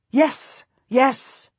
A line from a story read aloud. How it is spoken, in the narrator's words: the Queen exclaims